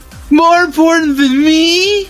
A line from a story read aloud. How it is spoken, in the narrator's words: Larry screamed at him